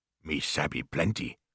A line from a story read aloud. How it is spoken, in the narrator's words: grunted Queequeg